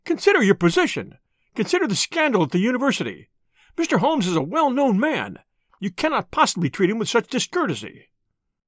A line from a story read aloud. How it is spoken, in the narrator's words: cried